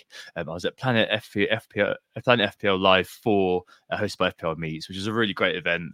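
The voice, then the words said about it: Hoarse, deep voice. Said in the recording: “As you can probably tell by the hoarse voice, I really do sound like a man this week.”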